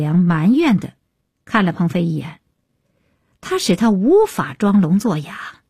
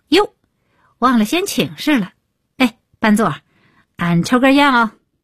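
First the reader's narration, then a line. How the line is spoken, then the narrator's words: Loud. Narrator (Chinese): 李伟立刻高声道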